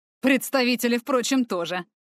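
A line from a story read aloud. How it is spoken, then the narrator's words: Snort. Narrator (Russian): хмыкнул ксенофил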